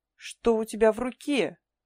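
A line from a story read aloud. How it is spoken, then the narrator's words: Yelling. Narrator (Russian): заорал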